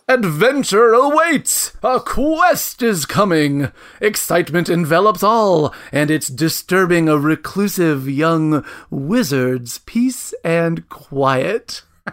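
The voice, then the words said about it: Dramatic adventure-narrator voice. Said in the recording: “I'm going to read it in my best adventuring voice.”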